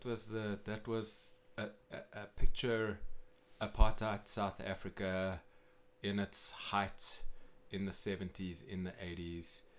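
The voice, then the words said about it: South African accent. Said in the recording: “a native from South Africa... South African accent here, Cape Town.”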